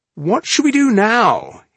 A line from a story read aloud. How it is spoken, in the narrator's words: He asked excitedly